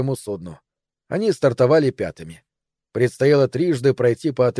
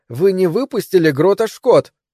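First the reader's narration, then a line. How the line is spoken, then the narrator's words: Angry shout. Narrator (Russian): сердито крикнула Мойра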